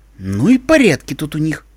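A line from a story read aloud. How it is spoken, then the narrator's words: Indignant declaration. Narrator (Russian): возмущенно заявила Искорка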